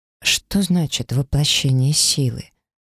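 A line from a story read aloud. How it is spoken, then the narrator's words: Cautious, very quiet question. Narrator (Russian): осторожно и очень тихо поинтересовалась я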